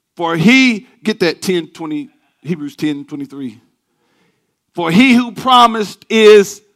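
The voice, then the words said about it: Loud, fast, yelling preaching delivery. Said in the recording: “does it sound like I'm yelling? Let me slow down.”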